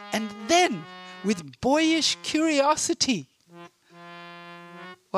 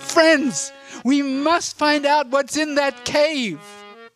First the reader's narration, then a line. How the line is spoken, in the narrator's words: Laughing loudly, they said